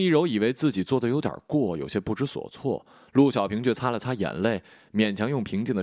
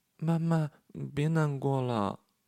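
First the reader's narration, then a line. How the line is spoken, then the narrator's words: Daughter speaking softly. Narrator (Chinese): 女儿在旁边小声说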